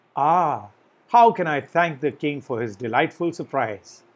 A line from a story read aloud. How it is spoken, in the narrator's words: with the utmost tenderness, cried